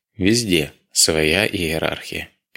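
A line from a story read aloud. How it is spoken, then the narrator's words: Sad. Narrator (Russian): печально ответил Дронго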